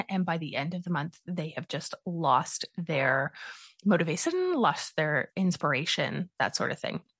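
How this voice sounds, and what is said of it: Congested, sniffly cold-affected voice. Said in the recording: “I am battling a bit of a head cold... it definitely sounds very different for me... if you're hearing a little bit of sniffling”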